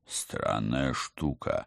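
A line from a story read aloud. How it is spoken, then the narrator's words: Thoughtful mutter. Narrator (Russian): задумчиво пробормотал Алекс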